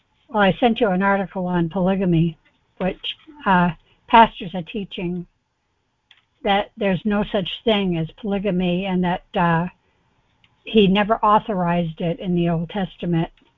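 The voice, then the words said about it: Hoarse, laryngitis-affected voice. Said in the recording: “Pardon my voice. I think I'm developing a little laryngitis ... So if I sound funny, that's why.”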